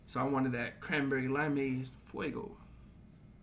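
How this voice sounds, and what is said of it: Usual voice. Nothing is said of it.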